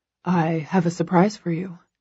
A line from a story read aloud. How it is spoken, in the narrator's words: he murmurs